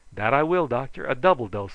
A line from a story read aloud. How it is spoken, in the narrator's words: I exclaimed